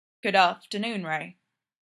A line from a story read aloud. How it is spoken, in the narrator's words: Fraser said, keeping his voice even